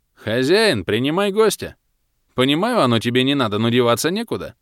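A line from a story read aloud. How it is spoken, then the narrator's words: Officer's cheerful shout. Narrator (Russian): Бодро прокричал войсковой старшина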